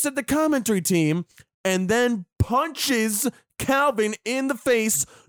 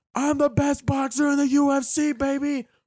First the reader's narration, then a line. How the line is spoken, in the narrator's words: screaming and goes